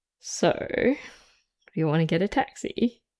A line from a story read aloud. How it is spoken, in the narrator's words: Ed murmured close to his ear